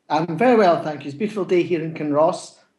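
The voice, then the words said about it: Scottish accent. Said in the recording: “from Kinross near Edinburgh in Scotland. You'll guess by his accent.”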